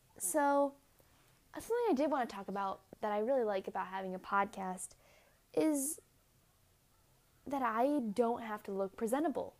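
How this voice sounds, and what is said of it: Raspy, low-energy voice. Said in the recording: “I'm low on energy... not have a raspy voice because I'm going to sleep soon”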